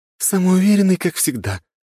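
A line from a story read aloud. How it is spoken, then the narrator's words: Sighing, sweetly smiling. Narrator (Russian): вздохнулась синеволосая и мило улыбнулась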